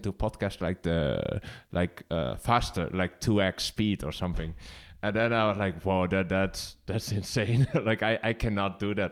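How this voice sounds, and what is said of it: Strong Dutch accent, slow speech. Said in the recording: “who's that guy with the Dutchiest accent ever? Like, he speaks so slow”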